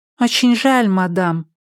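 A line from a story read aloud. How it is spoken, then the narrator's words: Sad, robot cat. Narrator (Russian): печально произнесла робо-кошка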